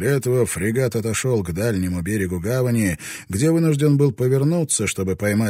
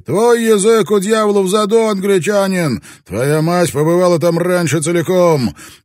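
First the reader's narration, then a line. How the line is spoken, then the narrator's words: Shouted in Spanish. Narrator (Russian): португалец крикнул ему по-испански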